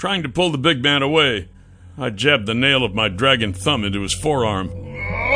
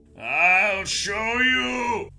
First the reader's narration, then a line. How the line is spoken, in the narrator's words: roared